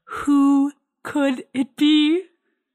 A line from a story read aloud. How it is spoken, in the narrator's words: I gasped